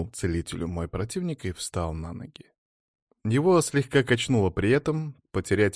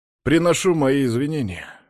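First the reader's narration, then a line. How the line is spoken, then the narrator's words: Loud. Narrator (Russian): громко сказал мой противник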